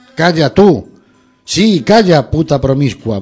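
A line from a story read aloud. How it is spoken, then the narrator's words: Furious yelling. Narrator (Spanish): vociferaba colérico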